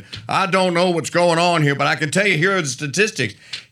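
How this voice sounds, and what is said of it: Country accent imitating a governor. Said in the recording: “the governor of West Virginia ... He has a country accent.”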